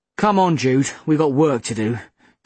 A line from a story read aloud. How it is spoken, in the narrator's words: Dad said grimly